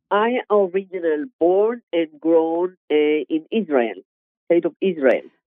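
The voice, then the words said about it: Israeli accent. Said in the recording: “I recognize the accent.”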